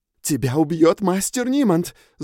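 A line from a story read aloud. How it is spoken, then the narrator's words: Shouted. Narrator (Russian): закричала-то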